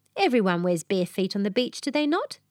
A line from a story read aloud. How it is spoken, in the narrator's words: said Frogmore Frederick